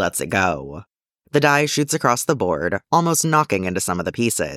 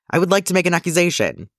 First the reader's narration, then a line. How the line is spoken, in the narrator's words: yelps, quickly remembering the rules